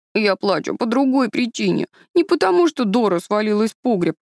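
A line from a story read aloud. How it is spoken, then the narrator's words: Sobbing boy interrupting. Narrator (Russian): оборвал нравоучение захлебывающийся от рыданий мальчик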